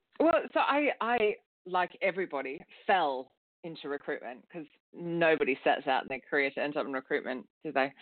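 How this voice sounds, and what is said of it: Australian accent. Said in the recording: “I moved to London from Australia, hence the strange accent.”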